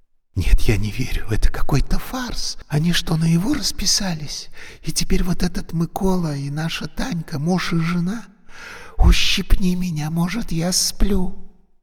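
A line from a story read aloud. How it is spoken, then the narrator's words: Whisper. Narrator (Russian): шептала Юлька Гоше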